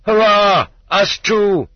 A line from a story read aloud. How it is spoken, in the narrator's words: They were shouting hurrah